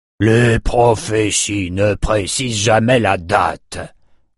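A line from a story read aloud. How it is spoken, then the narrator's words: Grumbled. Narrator (French): grogna Nathan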